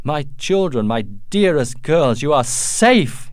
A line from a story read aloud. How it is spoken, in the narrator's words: he cried